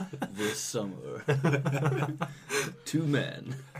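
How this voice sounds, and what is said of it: Poor movie-trailer announcer voice. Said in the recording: “cannot do an announcer voice”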